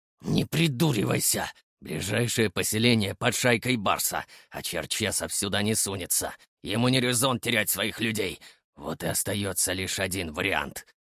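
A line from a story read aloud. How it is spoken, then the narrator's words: Angry hiss. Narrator (Russian): зло прошипел Илья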